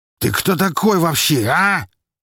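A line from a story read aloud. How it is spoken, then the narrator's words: Barked. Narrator (Russian): рявкнул он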